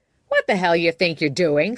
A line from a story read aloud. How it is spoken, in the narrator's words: said Todd, in a less eviscerating tone